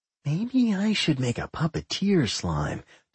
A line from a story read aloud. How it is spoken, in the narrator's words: Doc murmured